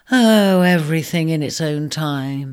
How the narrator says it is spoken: he sighed, forgiving himself for the lapse

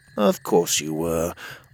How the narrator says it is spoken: I mumbled

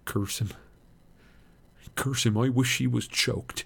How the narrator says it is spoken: he muttered

